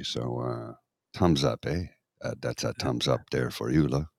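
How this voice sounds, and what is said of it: Put-on Quebec French accent. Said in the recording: “doing a Francais accent”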